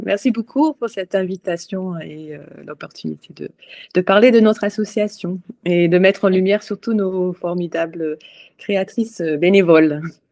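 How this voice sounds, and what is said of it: Scottish accent speaking French. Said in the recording (French): “d'où vient ce bel accent ... écossaise d'origine ... je, viens de donc d'Édimbourg”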